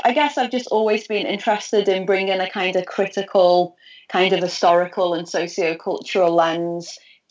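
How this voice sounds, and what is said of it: Liverpool English accent. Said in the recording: “for listeners hearing your accent ... I'm from Liverpool ... the northwest of England”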